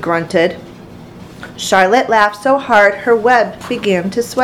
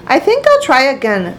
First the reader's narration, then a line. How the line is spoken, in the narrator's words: said Wilbur cheerfully